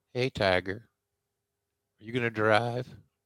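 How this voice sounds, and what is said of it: Soft baby-like voice. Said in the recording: “He has a soft baby voice.”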